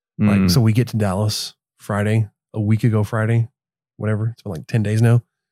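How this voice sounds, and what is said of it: Sick voice, not at full strength. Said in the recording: “Probably notice I don't sound 100%. ... Your voice is just velvety as ever. ... I got sick like the day after we left. ... I start coughing and not feeling well.”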